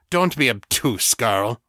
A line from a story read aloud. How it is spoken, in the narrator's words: Artax snarled